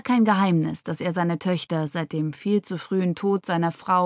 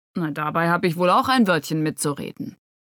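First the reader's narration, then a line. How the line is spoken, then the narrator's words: Grumbling mutter. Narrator (German): brummte Karl Moser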